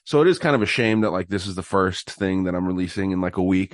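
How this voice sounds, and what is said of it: Sick-sounding voice. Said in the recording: “you can probably tell in my voice here, I'm still sick”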